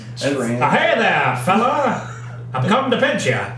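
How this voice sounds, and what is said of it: Put-on transatlantic old-Hollywood accent. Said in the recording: “that's the accent they have. That sort of transatlantic Cary Grant. That's how every lobster talks.”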